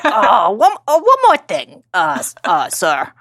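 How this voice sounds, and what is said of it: Imitates TV detective Columbo's voice. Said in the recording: “Please watch Columbo so you can then re-listen to my impression”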